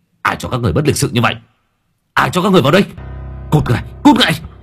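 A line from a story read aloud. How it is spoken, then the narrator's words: Shrill hiss. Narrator (Vietnamese): Hắn rít lên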